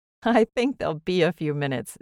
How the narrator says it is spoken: Zélie laughed

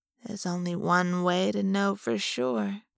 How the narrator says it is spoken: she said in a soft, silky voice

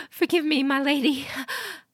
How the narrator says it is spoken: The woman panted

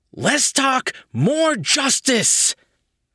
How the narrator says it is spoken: Flame Boy yelled

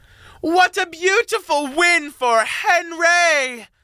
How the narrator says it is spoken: Charlene shouted to the crowd

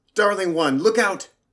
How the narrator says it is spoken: The sea shouted

